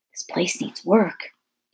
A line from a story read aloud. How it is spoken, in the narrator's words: Dune whispered to his father